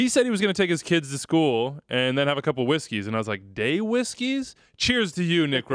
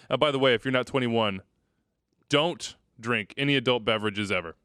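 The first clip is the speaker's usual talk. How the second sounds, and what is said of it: Stern fatherly dad voice. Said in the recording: “That's my dad voice coming out on you.”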